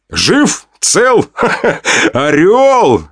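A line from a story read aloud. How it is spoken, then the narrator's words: Laughing. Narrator (Russian): Рассмеялся я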